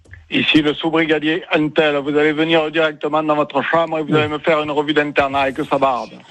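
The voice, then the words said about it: Strong put-on Marseille accent. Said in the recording (French): “l'accent que t'avais fait ... on est sur Marseille ... il avait vraiment un accent bien trempé”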